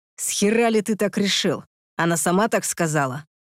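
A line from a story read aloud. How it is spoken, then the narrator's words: Hissing. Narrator (Russian): прошипел я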